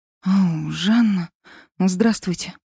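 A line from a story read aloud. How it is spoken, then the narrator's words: Mumbling. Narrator (Russian): пробормотала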